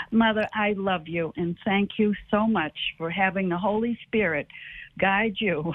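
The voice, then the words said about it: Boston East Coast accent. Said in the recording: “Boston, that's what you sound like. ... we have the East Coast accent”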